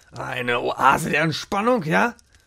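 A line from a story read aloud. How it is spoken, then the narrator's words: Hissing. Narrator (German): fauchte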